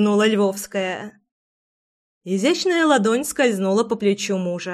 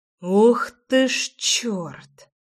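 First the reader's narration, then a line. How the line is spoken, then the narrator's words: Noisy exhale. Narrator (Russian): Шумно выдохнул Ромка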